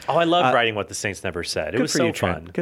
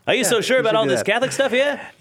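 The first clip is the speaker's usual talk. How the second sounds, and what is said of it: 1920s transatlantic accent. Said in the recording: “1920s ... the transatlantic accent”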